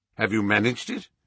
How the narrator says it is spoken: asked Holmes

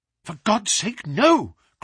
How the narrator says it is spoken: cried Bennett

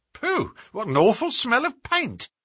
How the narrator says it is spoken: cried the inspector

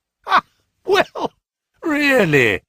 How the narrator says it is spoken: he cried

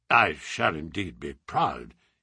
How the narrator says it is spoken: he murmured

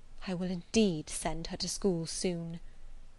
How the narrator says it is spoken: murmured Mrs

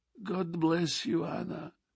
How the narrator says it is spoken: murmured the old man again

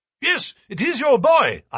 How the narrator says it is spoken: I cried

